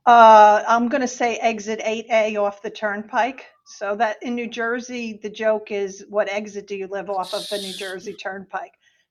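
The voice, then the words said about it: New Jersey accent. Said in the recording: “You can't tell from my accent. ... I'm a Jersey girl.”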